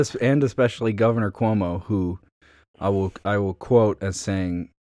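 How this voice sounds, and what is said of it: Usual voice. Nothing is said of it.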